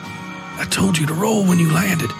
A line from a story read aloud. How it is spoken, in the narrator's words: the priest whispered